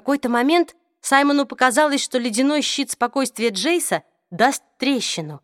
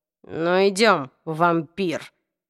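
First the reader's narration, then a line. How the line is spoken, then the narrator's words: Strained, through teeth. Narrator (Russian): процедил Нефилим с натянутой улыбкой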